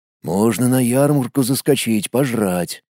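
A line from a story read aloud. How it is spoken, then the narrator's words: Whisper in ear. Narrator (Russian): прошептал мне на ухо Колян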